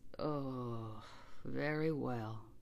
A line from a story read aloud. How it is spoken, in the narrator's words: said John gloomily